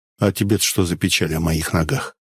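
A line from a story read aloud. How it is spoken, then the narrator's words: Sighing. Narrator (Russian): Поль вздохнул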